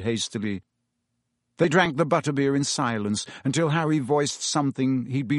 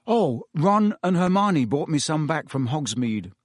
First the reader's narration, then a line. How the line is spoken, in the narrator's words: Harry lied quickly